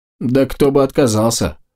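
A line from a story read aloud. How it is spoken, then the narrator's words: Snorting. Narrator (Russian): хмыкнул щитоносец в рогатом шлеме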